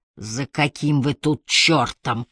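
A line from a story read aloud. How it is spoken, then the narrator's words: Rasping hoarse voice. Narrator (Russian): прохрипел он наждачным голосом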